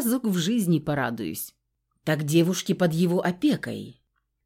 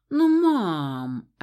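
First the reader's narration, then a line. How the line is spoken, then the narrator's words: Offended drawl. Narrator (Russian): обиженно протянул Дор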